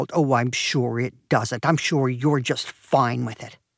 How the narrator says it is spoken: she growled

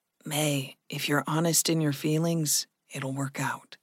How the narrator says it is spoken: Gregory said softly

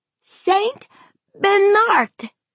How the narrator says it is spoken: Tad cried

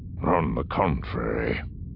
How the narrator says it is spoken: Thurfian said grimly

